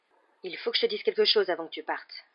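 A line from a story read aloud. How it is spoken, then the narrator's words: Tense voice. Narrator (French): reprit Monsieur Weasley d'une voix tendue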